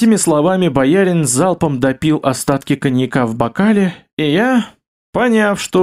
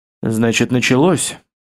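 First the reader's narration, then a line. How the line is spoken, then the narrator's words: Muttered. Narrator (Russian): пробормотал Бестужев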